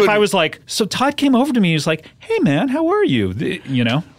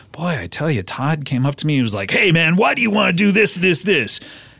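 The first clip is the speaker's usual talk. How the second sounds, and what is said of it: Imitates another person's voice, hostile tone. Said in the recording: “the tone of voice and the impression I'm doing of you makes you the bad guy”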